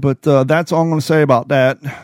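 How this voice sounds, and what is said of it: Imitates Forrest Gump's voice. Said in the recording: “Do my best Forrest Gump impression.”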